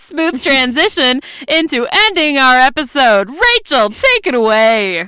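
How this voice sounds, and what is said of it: Game show announcer voice. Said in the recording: “That was my announcer voice. ... It's like my game show announcer voice.”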